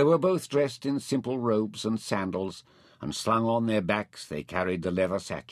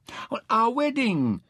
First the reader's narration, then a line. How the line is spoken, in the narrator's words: Mintaka cried